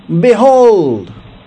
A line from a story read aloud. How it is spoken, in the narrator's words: Hank shouted to the people